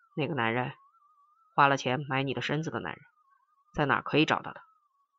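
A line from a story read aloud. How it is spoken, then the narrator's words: Hushed question. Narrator (Chinese): 压低声音问蓝女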